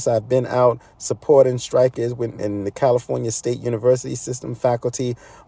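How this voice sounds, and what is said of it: Sore, hoarse voice. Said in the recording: “My voice is a little bit sore and hoarse.”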